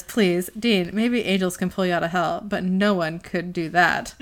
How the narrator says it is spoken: Sam laughs and says

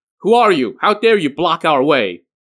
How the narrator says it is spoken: Mustering their courage, they shouted

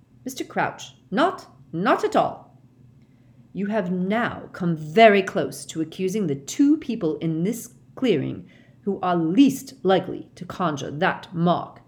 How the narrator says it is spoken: barked Mr

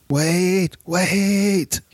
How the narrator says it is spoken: he yelled as the executioner approached

